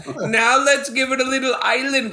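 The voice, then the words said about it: Bad put-on Jamaican accent. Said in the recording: “I'm talking like a Jamaican, like a bad Jamaican accent”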